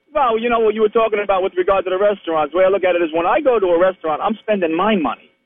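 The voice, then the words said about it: New York accent. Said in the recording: “I hear the Tennessee accent. It's fantastic. ... No, it ain't no Tennessee accent. I know it's a New York accent.”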